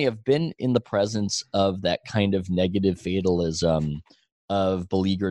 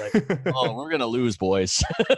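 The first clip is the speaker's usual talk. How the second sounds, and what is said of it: Bad put-on Canadian accent. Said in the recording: “this bad Canadian accent”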